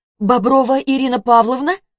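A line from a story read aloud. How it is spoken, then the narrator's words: Shouted out. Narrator (Russian): выкрикнула Варвара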